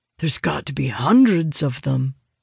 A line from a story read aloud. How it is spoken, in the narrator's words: Owen mutters, sounding more than a little concerned